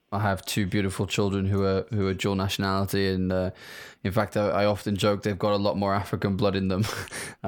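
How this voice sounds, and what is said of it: British English accent. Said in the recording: “As people can probably hear from my accent, I am not from Africa. I'm from the UK.”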